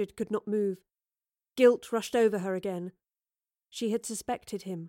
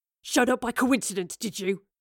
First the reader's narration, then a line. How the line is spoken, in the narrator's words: He snarled at her